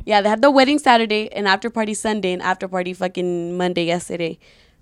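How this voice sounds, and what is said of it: Raspy, strained voice. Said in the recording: “my voice is kind of raspy ... So I be yelling, so my voice is a little fucked”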